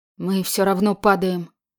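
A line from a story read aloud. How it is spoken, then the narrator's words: Quiet. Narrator (Russian): сказала Марьяна тихо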